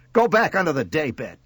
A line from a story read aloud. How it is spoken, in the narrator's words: she snapped